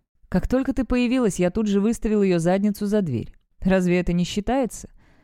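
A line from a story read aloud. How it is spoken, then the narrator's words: Throaty laughing question. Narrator (Russian): спрашивает он, гортанно смеясь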